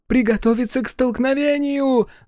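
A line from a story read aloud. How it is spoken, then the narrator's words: Screaming. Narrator (Russian): завопила военный наблюдатель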